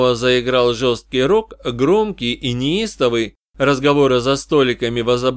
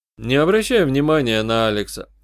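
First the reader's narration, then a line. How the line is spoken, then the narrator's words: Calm advice. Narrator (Russian): спокойно посоветовал я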